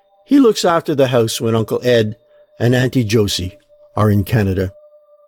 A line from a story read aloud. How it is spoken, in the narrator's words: in a more serious tone, she added